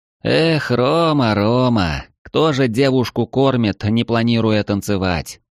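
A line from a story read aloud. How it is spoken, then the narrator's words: Sighing. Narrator (Russian): вздохнул Эридани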